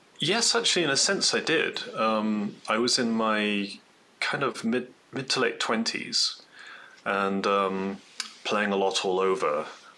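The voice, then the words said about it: Northeast English accent. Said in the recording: “I'm taking from your accent that you're probably not from Colorado... I've somehow not managed to lose the accent totally yet. I'm from Northeast England originally.”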